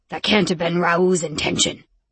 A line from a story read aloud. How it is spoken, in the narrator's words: my voice growled out, sounding far too much like Rome's voice